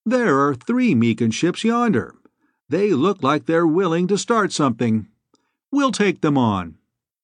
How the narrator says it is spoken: Bor said in a conversational voice

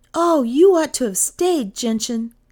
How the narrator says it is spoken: Kay cried

